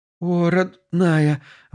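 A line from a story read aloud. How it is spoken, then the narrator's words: Breathed out tenderly. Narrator (Russian): выдохнула Марина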